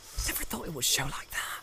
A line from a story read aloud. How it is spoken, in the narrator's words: he muttered